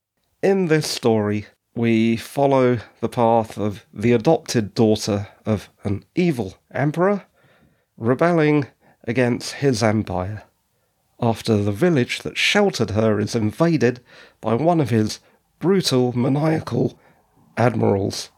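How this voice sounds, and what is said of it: Strained voice giving out. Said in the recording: “my voice is going there a bit.”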